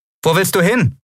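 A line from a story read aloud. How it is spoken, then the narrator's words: Called after someone. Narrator (German): rief Lien ihr nach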